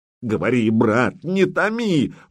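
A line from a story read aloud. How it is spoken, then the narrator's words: Exclaiming. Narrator (Russian): воскликнул Претич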